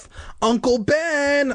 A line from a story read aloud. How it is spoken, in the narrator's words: I shouted